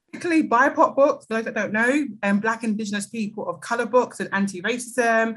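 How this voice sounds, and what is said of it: British South East London accent. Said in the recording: “my accent, I'm British. I'm from London, South East.”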